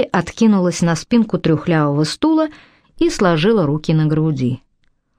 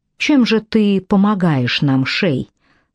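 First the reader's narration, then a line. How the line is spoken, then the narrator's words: Calm question. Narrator (Russian): спокойно осведомилась Мэдди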